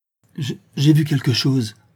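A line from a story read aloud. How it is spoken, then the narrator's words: Stammering. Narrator (French): bégaya Gertrude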